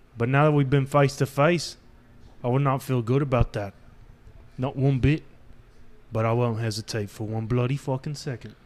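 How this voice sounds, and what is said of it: Deliberately bad put-on accent. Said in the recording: “That's the last accent I can pull out. The last shitty accent I can pull out.”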